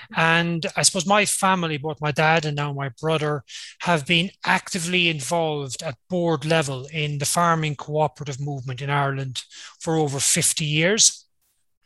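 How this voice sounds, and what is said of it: Irish accent. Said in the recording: “I was born on an Irish dairy farm, and you might pick that up in the accent.”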